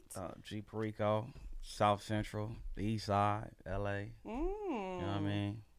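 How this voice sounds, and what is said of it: Los Angeles accent, loosely proper-sounding. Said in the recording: “I love L.A. niggas accent. ... It seems like you're kind of talking proper, but it's really low-key not. ... It's like broke proper.”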